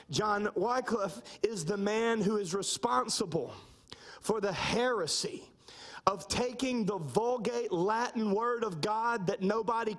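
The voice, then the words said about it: Southern American twang. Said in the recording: “my southern twang, as I've heard it all my life”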